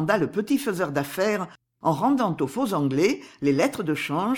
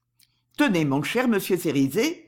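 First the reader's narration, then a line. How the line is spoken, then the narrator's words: Cold interruption. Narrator (French): dit froidement Barker en interrompant Cerizet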